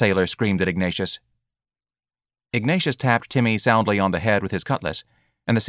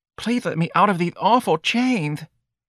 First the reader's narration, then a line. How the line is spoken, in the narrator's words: the sailor pleaded